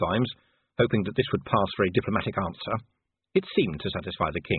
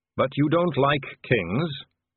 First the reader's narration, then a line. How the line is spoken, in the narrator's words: said the dwarf